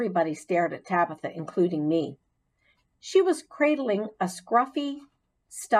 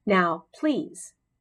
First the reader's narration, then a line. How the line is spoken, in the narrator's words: said Mrs